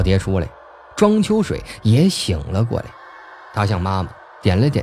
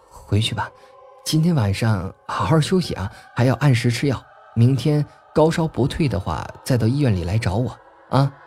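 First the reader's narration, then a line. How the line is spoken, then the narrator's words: Sighing. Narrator (Chinese): 于芬芳叹了一口气儿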